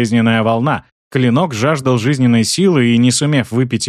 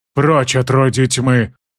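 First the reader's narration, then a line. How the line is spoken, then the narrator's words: Hollow, muffled voice. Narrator (Russian): глухо сказал Бран-отступник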